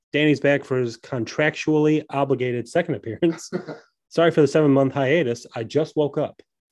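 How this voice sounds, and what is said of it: Congested, strange-sounding voice. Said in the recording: “my voice sounds strange, it's because my nose is clogged”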